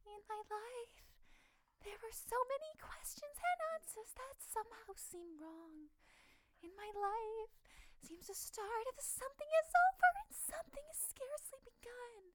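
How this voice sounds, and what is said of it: Sung imitation of a female character. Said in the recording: “That's literally not, that's not how she sounds at all. I don't know why that's my impression of her.”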